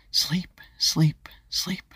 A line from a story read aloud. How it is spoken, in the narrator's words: Ava whispered to herself